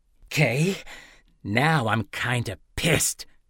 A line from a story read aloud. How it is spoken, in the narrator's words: Dessen snarled